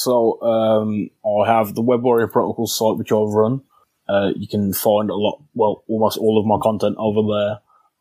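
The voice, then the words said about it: Speaks with a noticeable accent. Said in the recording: “my bad accent ... you have a charming accent.”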